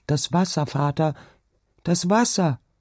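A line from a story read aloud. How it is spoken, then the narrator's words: Shouted. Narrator (German): rief sie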